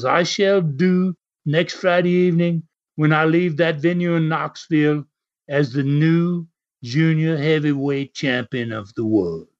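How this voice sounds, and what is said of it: Put-on British accent. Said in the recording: “while you were doing that accent, just so you know, we all enjoyed a spot of tea.”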